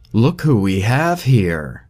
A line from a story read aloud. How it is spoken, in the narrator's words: blasts the voice excitedly, powerful, but calming to Samson